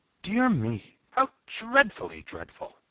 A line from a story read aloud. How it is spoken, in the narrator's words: A dainty moss rose gasped